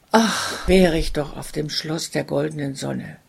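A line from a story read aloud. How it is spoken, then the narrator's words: Deep heartfelt sigh. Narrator (German): seufzte er aus tiefstem Herzensgrund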